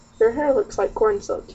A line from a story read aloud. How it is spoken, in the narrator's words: he said